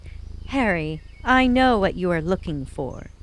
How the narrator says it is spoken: said the cat

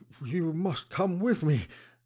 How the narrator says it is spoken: he panted

